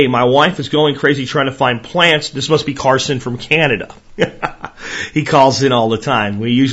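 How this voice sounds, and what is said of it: Usual voice. Nothing is said of it.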